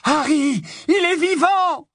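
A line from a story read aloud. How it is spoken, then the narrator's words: Shouts abruptly choked off. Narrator (French): hurlés de toutes parts s'étranglèrent aussitôt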